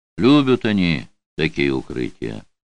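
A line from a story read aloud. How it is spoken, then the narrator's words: Belated warning. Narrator (Russian): запоздало предупредил Карташ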